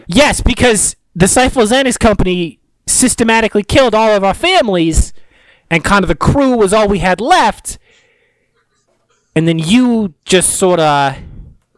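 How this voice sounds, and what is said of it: Put-on New Jersey accent. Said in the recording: “I've fallen into a Jersey accent and out of the Valley accent.”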